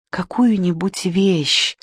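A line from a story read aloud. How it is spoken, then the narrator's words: Quiet request. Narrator (Russian): тихо попросила первая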